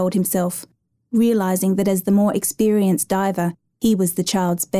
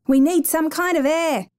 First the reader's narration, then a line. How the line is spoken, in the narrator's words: yelled